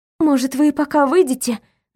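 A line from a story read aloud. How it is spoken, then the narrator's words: Forced out with effort. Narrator (Russian): нашла я в себе силы выдавить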